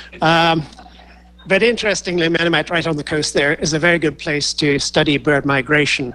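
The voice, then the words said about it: Noticeable foreign accent. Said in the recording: “As you can tell from the funny accent, I only came over here in 1972.”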